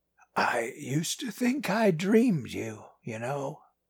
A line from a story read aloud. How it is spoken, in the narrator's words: he said, but his voice was raspy and quiet